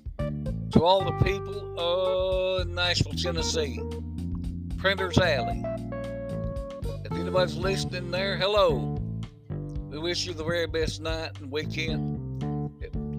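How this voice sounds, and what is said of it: Sports announcer style impression. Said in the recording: “I'm doing my very best Chris Berman impression.”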